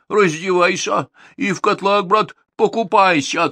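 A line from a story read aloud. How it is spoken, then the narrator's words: King shouting. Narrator (Russian): царь Ивану закричал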